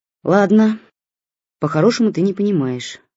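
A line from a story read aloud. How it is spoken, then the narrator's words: Sighing mother. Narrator (Russian): вздохнула мама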